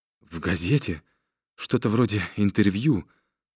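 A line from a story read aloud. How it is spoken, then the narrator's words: Fat man's trembling voice. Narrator (Russian): говорил толстяк дрожащим голосом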